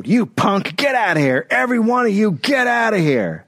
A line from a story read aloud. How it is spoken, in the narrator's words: He yelled at her